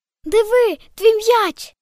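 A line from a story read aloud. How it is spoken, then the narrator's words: Cried out. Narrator (Ukrainian): скрикнув Цокайлик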